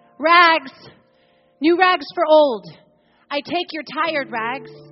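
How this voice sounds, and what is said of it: Clear tenor calling out. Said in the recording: “calling in a clear tenor voice”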